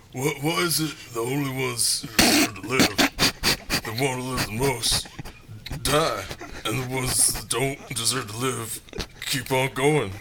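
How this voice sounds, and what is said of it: Imitates another person's voice. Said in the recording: “my best Sylvester Stallone impression”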